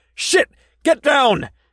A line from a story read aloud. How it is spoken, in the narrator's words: yelled